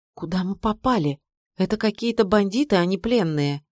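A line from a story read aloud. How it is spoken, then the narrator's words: Frightened whisper. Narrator (Russian): испуганно шепнула мне мама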